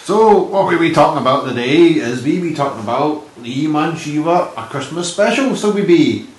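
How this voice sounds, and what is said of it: Wandering put-on accent. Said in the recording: “I love your wandering accent.”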